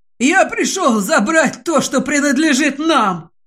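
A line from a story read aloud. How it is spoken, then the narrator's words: Hoarse. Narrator (Russian): хрипит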